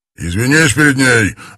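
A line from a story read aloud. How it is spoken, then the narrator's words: Barking. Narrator (Russian): рявкнул Суслив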